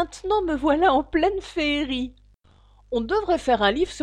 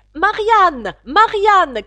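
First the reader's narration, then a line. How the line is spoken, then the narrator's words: Shouting. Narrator (French): criait la voix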